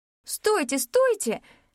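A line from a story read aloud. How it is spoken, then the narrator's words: Pleading. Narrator (Russian): взмолилась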